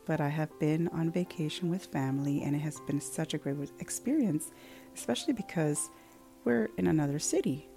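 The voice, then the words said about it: Soft, lowered speaking voice. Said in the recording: “my voice is a little bit lower on purpose”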